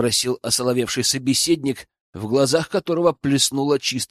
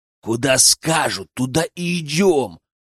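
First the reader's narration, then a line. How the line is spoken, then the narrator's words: Growl. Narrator (Russian): рыкнул бородатый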